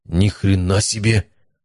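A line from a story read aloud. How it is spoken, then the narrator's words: Stunned, forced-out words. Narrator (Russian): выдавил из себя Матвей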